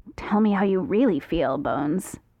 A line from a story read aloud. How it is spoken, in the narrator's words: Jim mutters